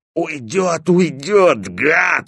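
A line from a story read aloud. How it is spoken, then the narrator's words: Hoarse wheezing. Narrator (Russian): хрипел Стопка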